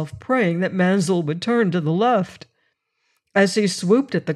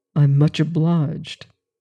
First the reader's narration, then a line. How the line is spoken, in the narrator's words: he said quietly